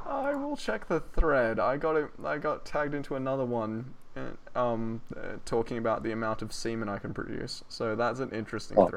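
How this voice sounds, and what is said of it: Australian accent. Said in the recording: “Because I'm fucking Australian, mate... you're Australian... you said it in an Australian accent”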